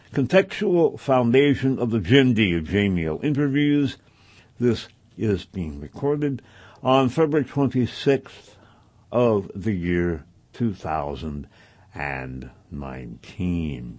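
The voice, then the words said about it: Slightly congested voice, less crisp. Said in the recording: “if an edge is missing. I've got a little bit of a cold. Not bad, but it is, it is doing what colds do ... if I'm not reading or pronouncing quite as crisply as I am accustomed to doing”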